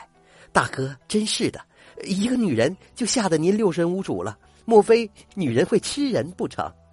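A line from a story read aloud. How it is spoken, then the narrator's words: Laughing. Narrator (Chinese): 石男儿笑了起来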